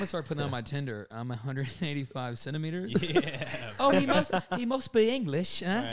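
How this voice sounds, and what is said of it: Usual voice. Nothing is said of it.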